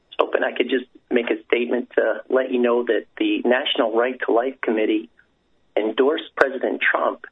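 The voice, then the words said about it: Rough voice, sounds like a cold. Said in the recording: “my voice is a little rough. I've got a little bit of a cold”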